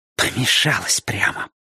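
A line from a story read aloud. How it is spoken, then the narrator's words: Hissing. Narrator (Russian): прошипела она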